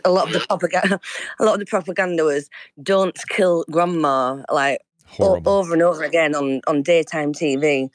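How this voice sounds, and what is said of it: English accent. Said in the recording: “I don't know if you can tell from my accent. I'm in England”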